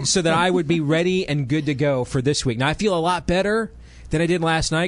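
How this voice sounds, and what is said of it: Gravelly, sick-sounding voice. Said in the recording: “No, this is not my Large Marge Wolfman Jack impersonation. This is me drying out with an ear infection.”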